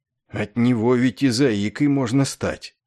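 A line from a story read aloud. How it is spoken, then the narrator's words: Shuddering despondent whisper, chief. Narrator (Russian): содрогнувшись, прошептал в унынии вождь Белый Овсюк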